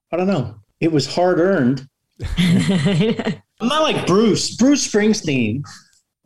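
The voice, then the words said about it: New York accent. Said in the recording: “you have not lost your accent at all... You don't have that tenafly accent anymore... you still have your New York accent.”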